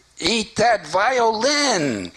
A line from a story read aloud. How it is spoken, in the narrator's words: cried Chagall's mother